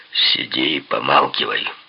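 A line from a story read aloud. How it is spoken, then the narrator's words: Gloomy. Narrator (Russian): мрачно сказал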